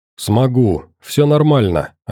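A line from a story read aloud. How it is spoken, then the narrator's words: Plain, young man. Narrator (Russian): ответил парень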